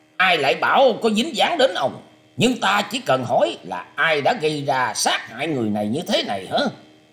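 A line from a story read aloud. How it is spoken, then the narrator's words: Harsh, gritted voice. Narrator (Vietnamese): Đặng Thông gằn giọng bảo rằng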